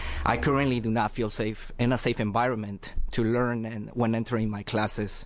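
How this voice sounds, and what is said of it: Heavy non-native English accent. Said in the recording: “my heavy accent ... English is my second language, and my accent is something that I do not control ... the accent's still there”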